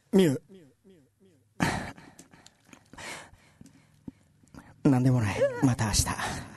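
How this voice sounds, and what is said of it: Whispering in a nervous confession tone. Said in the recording (Japanese): “告白しそうなテンションで、 ... さんにささやいていただきたい”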